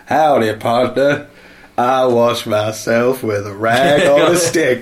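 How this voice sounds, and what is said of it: Put-on American accent. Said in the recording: “They're the two American accents”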